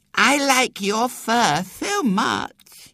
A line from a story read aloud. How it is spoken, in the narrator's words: she said sweetly